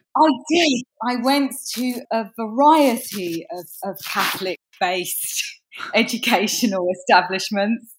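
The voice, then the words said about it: English accent. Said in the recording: “it's not just the accent. I did my research. You're from England.”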